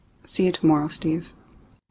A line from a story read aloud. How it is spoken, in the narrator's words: softly say